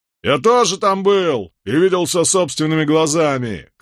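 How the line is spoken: Rebel shouting. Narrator (Russian): крикнул один из повстанцев

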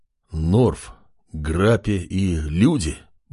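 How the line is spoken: Hostile muttering. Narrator (Russian): бормотал адмирал, который был тем еще ксенофобом и ненавидел всех нелюдей

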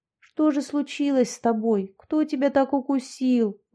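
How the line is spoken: Gentle soothing murmur. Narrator (Russian): ласково приговаривала Яшка

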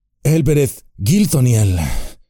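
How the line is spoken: Wistful sigh. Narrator (Spanish): suspiró, mirando al cielo

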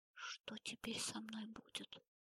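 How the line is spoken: Whisper. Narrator (Russian): прошептала она

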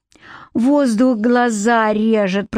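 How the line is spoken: Moaning. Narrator (Russian): простонала она

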